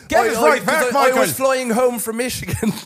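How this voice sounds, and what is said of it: Put-on Irish accent. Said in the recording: “The episode is the Irish accent. Keep going. We're not breaking.”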